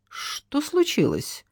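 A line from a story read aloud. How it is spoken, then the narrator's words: Quiet question. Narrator (Russian): тихонько спросила Надежда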